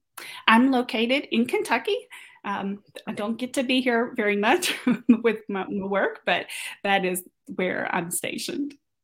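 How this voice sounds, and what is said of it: Slight Kentucky accent. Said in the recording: “you can hear just a tinge of an accent.”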